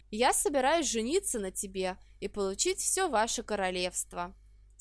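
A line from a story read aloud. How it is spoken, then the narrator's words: Calm, candid reply. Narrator (Russian): спокойно и честно ответил он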